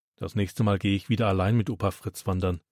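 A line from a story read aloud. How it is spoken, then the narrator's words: Murmured. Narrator (German): murmelt Florian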